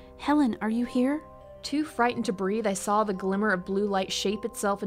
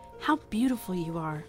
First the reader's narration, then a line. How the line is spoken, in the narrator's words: she whispered